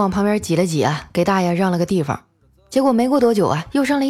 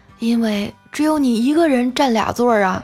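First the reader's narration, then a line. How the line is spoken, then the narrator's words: Old man sighing. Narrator (Chinese): 大爷叹了口气啊，说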